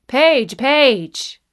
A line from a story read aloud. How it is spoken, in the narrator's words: called out